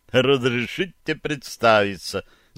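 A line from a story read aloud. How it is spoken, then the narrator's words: Laughing. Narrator (Russian): засмеялся он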